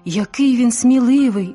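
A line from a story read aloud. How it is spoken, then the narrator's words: Excited exclaim. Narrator (Ukrainian): збуджено вигукнув Олег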